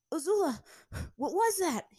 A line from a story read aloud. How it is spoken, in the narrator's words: He asked between breaths as they ran